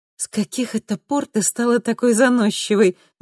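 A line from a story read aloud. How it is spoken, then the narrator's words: Bursting into laughter. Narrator (Russian): не выдержала Луиза и рассмеялась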